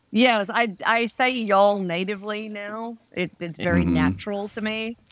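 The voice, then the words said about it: Australian accent with slight Texan drawl. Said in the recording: “my accent ... Have you softened a little of the Australian accent and taken on some of the drawl that is known as Texan?”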